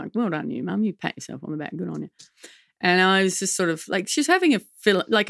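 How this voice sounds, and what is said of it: Usual voice. Nothing is said of it.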